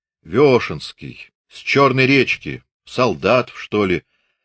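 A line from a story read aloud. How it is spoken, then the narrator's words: Plain. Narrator (Russian): ответил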